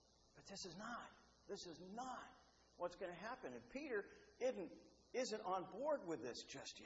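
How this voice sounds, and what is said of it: Usual voice. Nothing is said of it.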